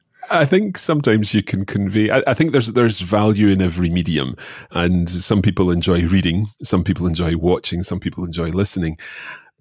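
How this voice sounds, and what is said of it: Scottish accent. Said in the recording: “anyone listening to this will undoubtedly have picked up my Scottish accent”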